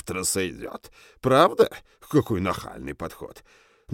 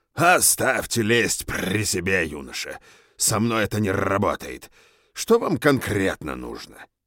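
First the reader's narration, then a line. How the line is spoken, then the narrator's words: Growling. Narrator (Russian): Профессор Спиро издал рычащее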